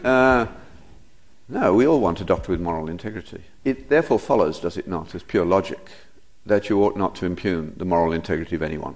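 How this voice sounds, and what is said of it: Foreign-accented English. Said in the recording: “I know I've got a foreign accent, but I didn't think it was that bad.”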